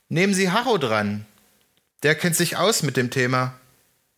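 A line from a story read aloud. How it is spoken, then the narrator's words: Calling out into room. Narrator (German): rief Karl in den Raum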